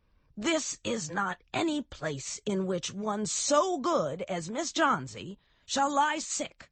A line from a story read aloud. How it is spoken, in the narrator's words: yelled Behrman